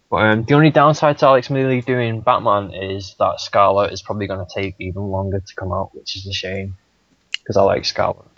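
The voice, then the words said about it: Speaks with a noticeable accent. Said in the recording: “It's probably with my accent.”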